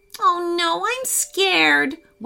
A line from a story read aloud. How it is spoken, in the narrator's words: Weston whimpered